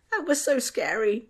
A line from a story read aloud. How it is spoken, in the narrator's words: Tom squeaked